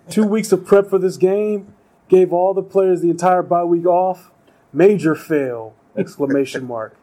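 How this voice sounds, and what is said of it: Imitates another person's voice. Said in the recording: “doing a Trump impression.”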